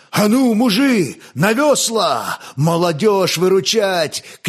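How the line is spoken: Eagle's shout. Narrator (Russian): крикнул орел

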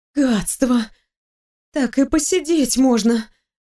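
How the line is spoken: Exhaled. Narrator (Russian): выдохнула я

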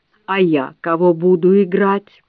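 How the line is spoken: Snide man's voice. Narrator (Russian): мужичок вредным голосом спрашивает

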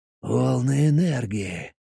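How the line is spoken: Muttering. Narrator (Russian): пробормотал Зак

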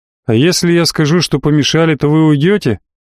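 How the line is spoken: Smirking. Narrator (Russian): хмыкнул

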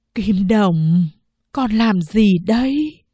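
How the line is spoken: Trembling elderly question. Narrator (Vietnamese): Mẹ cất giọng run run của người già hỏi

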